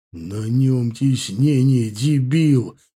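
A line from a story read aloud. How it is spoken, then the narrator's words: Furious through gritted teeth. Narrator (Russian): Едва шевеля губами, чуть ли не метая искрами, процедил Бажен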